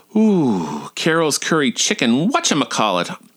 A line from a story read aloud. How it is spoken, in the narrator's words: I exclaimed in sort of a panic